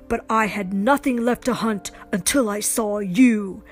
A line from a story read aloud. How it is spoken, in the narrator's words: Kraven yelled